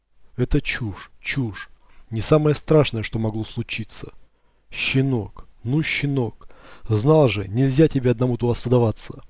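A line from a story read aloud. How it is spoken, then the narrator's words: Whispered. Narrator (Russian): шептал я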